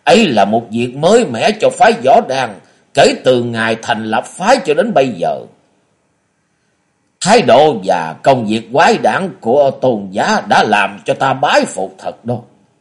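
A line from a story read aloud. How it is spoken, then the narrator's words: Surprised, loud laughing. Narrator (Vietnamese): Trung Nguyên đạo trưởng ngạc nhiên lớn tiếng cười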